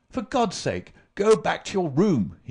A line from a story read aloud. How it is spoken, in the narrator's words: he cried